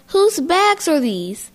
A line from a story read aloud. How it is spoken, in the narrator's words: I yelled